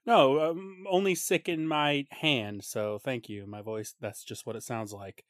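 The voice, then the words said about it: Wheezy, sick-sounding voice. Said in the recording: “You sound a little sick. ... if I sound wheezy”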